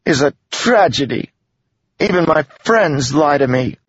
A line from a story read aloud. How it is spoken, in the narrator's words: snapped